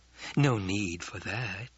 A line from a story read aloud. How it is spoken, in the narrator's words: Jessica murmured